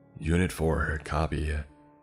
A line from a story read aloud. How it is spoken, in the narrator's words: I said through panting breaths